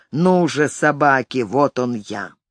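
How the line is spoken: Jubilant, fearless vicious growl. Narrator (Russian): Уильям возликовал, его страх прошел, и он злобно прорычал

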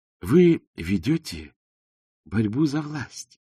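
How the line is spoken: Sugary sweet voice. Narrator (Russian): сладким голоском продолжал Коэн

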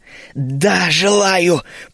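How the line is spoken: Hoarse, dry-throated rasp. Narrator (Russian): прохрипел я пересохшим горлом

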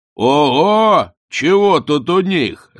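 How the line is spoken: Distant yell. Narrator (Russian): заорал он от баркаса

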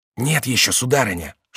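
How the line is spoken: Whispering. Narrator (Russian): шепотом же отвечал Андре

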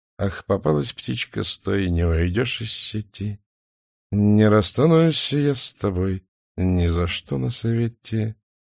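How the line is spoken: Soft singing. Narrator (Russian): тихонько напевал охотник

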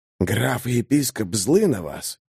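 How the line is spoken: Whispered in ear. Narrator (Russian): шепнул он на ухо Кайру

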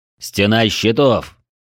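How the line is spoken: Menacing bark. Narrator (Russian): грозно гаркнул Дрой

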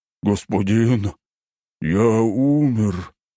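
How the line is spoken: Slow dazed voice. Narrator (Russian): спрашивает он заторможенным голосом

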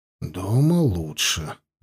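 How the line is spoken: Worried mutter. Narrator (Russian): озабоченно пробормотал я

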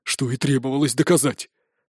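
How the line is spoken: Spiteful smirking. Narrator (Russian): зло ухмыльнулся снабженец

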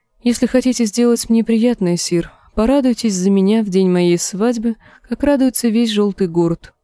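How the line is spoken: Sighing. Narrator (Russian): вздохнула Дэнни

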